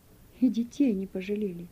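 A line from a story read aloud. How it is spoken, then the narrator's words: Quiet elderly woman. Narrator (Russian): Пожилая женщина тихо сказала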